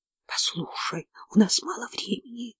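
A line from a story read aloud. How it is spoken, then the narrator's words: Whispering. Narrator (Russian): шептала я дальше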